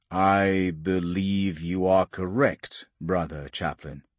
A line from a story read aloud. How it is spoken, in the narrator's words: Tyrannus said slowly